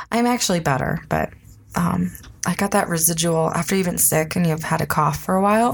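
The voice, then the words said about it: Sick, congested, breathy voice. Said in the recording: “you cannot breathe ... some respiratory issues ... I'm sick, so my voice isn't so great”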